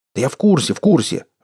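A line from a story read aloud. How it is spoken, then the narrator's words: Irritated reply. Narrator (Russian): раздраженно ответил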